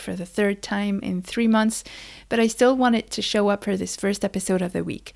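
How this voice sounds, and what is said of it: Sick voice with a cold. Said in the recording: “As you can hear, I am sick. ... I have a cold”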